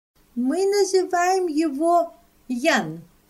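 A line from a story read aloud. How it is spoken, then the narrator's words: Loud and clear. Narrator (Russian): ответила она громко и отчетливо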